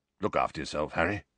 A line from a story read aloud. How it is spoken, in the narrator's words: Sirius was saying gruffly